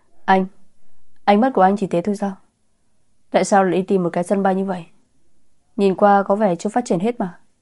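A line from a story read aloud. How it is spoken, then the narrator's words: Bursting into laughter. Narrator (Vietnamese): Anh nói xong đột nhiên cười phá lên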